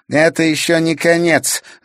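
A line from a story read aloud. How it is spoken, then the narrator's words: Spiteful. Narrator (Russian): злобно сказала девчонка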